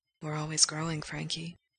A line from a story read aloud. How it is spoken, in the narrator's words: Gerard whispers